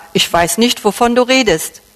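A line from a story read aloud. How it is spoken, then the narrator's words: Plain. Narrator (German): sagte er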